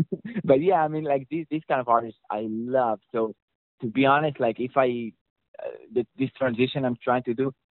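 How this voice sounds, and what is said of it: Israeli-accented English. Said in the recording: “I just like how you say the name Charlie Puth ... that's my Israeli accent.”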